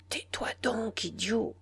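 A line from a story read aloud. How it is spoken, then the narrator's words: Murmuring. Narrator (French): murmura Philippe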